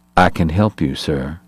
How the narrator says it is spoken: said quietly

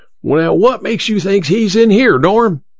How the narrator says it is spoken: Emma's father yelled again

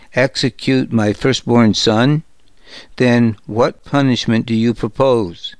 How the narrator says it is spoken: asked Maaka, her voice strained

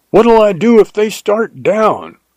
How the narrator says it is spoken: I yelled after him

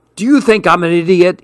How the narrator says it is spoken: he shouted

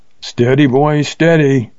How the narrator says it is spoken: cried the Texan

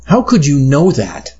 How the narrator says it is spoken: I asked, feeling my voice rise

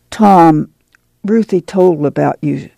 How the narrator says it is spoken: Ma said uneasily

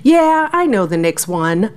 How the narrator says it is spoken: Malik Myers said with a laugh

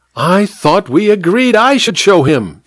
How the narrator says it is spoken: squealed the vicar petulantly

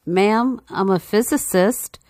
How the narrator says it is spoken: Crestfallen meekly offered

